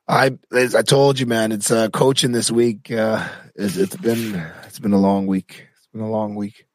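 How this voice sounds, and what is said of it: Coarse, hoarse voice. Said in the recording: “Your voice is very coarse.”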